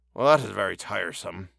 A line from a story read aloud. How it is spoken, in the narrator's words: he muttered